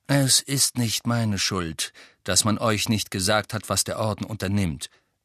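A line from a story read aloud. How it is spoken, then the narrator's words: Calm explanation. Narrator (German): erklärte Sirius ruhig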